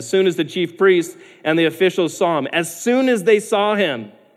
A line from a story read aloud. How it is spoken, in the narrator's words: they shouted